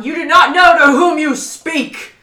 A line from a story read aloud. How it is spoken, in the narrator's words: he's just yelling at all of them